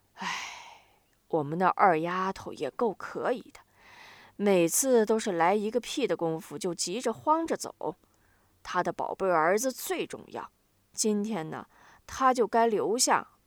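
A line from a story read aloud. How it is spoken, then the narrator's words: Sighing. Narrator (Chinese): 丁宝香叹息了一番，又说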